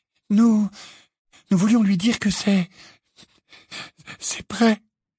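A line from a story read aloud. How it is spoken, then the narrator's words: Stammering, muffled voice. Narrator (French): balbutia Hermione d'une voix étouffée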